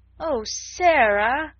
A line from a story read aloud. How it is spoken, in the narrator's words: Ermengarde almost wailed in her reproachful dismay